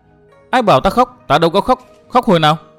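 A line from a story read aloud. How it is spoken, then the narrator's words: Rough, loud girl. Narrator (Vietnamese): Thiếu nữ áo lam tính nết lại rất thô bạo, lớn tiếng nói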